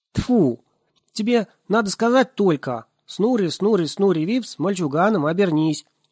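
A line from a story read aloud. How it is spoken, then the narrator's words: Shouting from below. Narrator (Russian): закричал снизу Нисе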